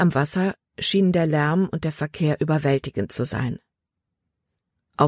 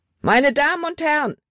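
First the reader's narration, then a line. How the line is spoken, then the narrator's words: Shouting. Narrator (German): schrie er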